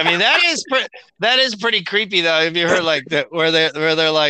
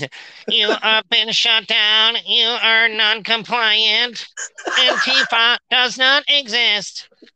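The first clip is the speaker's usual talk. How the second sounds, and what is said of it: Robotic voice. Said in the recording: “robot voice.”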